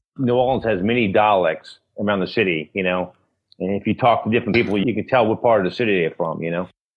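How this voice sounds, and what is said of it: New Orleans accent, sounds Boston/New York. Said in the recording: “New Orleans has its own unique accent. I've been confused as being from Boston or New York.”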